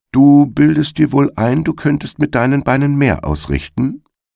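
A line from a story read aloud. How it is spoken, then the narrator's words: Plain. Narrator (German): sagte er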